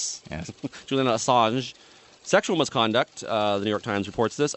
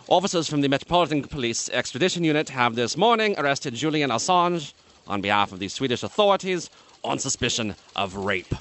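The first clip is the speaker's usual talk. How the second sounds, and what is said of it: Put-on British accent. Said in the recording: “I should do it in a British accent, obviously.”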